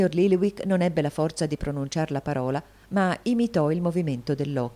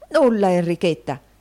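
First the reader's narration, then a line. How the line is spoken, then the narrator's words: Exclaimed. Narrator (Italian): esclamò il riscossore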